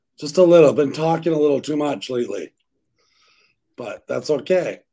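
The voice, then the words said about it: Hoarse, partly lost voice. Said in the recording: “Lost my voice a little.”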